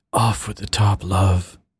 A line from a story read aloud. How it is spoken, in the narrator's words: Dan whispered